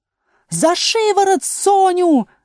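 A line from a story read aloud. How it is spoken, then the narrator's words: Shrieked. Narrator (Russian): завопила королева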